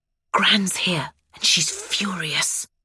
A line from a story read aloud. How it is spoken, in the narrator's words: Danny says in a hushed tone